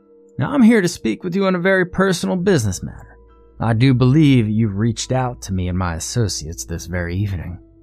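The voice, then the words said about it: Exaggerated southern dandy accent. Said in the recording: “He had a southern accent that was practically a caricature of the southern dandy ... threw out a lot of his words for emphasis”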